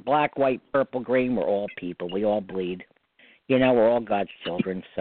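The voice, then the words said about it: New York accent. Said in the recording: “people keep saying I got the New York accent ... I love your New York accent”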